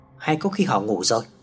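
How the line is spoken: Soft-spoken. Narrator (Vietnamese): Chồng khẽ nói với Hào

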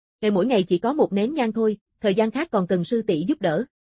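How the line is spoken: Smiling. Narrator (Vietnamese): Mộ Phong mỉm cười

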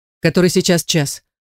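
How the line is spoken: Sharp. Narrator (Russian): Резко бросаю

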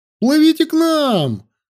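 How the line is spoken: Excited shout. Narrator (Russian): закричал воодушевленный Анил

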